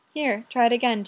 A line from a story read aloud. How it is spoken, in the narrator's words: said